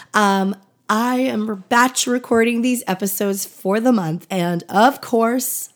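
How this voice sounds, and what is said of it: Scratchy, hoarse voice. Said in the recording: “my voice is a little bit scratchy today ... been sick the last couple of weeks and just getting my voice back, so it may sound a little bit scratchy”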